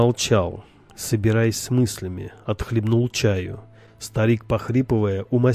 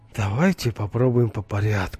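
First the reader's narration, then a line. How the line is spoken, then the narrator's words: Sighing. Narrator (Russian): вздохнул он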